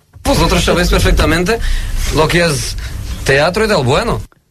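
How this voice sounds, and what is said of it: Australian speaking Spanish, Portuguese-sounding accent. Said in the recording (Catalan): “un accent estrany... És estrany, perquè és australià, l'Eddie Jones, però en canvi té com, no sé, té com un accent portuguès un pèl estrany”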